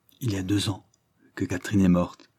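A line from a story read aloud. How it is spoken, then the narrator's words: Low soft voice. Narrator (French): lui dit-il à voix basse et de cette voix douce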